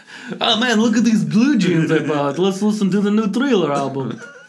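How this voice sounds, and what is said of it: Bad imitation of Russian accent. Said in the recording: “doing a terrible impression of them... People from Russia... making fun of your accent”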